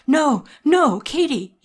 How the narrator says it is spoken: cried

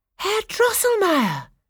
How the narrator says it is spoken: cried Clara

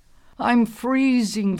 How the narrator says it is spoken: Thorny moaned

